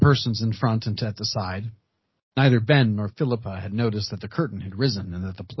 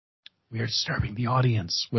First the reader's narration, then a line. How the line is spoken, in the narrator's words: whispered Mr